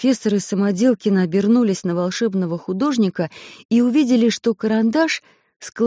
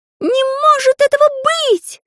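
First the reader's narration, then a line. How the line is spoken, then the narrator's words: Sudden loud exclamation. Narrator (Russian): вдруг громко воскликнул Карандаш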